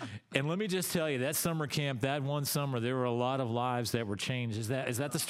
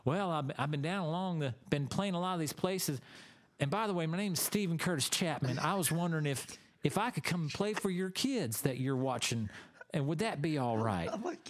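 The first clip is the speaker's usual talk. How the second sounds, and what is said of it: Soft Tennessee accent. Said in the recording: “I like your soft Tennessee accent.”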